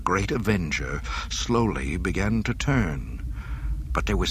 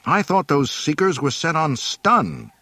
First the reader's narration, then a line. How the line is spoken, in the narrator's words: he exclaimed angrily